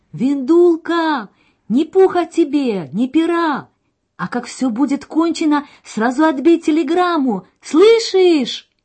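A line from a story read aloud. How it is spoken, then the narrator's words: Father shouting while running. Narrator (Russian): Отец бежал рядом с вагоном и кричал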